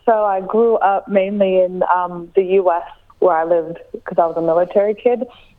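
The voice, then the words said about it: Strong American accent. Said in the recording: “my very strong American accent”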